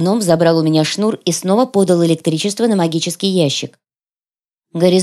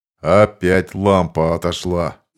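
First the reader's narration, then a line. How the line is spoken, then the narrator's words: Grumbling. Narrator (Russian): проворчал бородач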